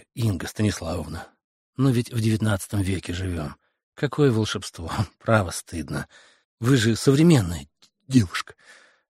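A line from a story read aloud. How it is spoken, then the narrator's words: Soft, gentle. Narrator (Russian): Фандорин мягко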